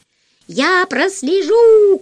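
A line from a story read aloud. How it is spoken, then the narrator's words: Shouting bird. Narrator (Russian): крикнула птица Дурында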